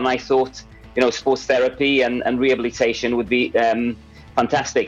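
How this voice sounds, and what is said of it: Mixed, well-travelled foreign accent. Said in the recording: “by your accent, you can see you've travelled the world”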